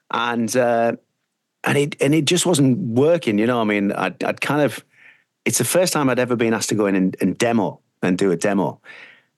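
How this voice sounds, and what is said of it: Northeast English accent. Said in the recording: “you can hear more of my northeast accent ... I love that Borough accent”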